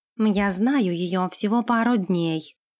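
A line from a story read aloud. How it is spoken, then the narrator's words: Plain. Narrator (Russian): ответил Нэш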